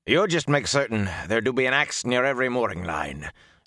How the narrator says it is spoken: Doman said curtly

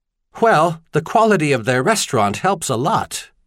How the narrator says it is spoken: Tanner had laughed

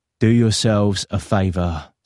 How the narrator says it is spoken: sighed the man

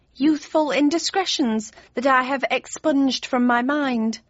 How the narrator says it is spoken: sighed my mother

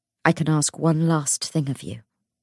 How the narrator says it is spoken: he said

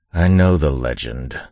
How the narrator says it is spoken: Kanoa said, sighing

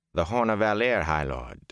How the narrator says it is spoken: Fane said smoothly, pleased

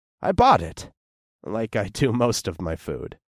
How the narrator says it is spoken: I chuckled

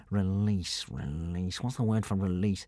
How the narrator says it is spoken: muttering to himself

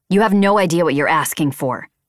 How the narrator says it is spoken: she snapped at me

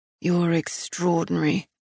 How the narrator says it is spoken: he murmured

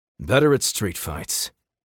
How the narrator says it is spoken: Kai replied dryly

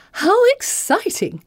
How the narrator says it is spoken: Mademoiselle Lafarge exclaims

